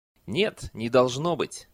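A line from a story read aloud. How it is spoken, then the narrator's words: Skeptical snort. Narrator (Russian): хмыкнул аббат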